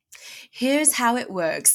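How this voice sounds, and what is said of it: Put-on British accent. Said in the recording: “I'm going to say it with a British accent.”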